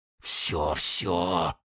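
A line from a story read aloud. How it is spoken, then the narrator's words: Breathless whisper. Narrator (Russian): задыхаясь, шептал он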